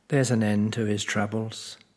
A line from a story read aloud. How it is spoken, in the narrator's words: sad Mother sighed